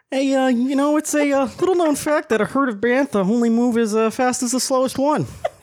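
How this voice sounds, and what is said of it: Cliff Clavin impression. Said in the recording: “does an excellent Cliff Clavin impression”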